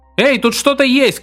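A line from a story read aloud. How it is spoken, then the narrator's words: Shout. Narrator (Russian): крикнул ему Хелман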